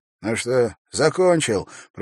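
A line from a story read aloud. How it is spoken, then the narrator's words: Hoarse wheeze. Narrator (Russian): просипел он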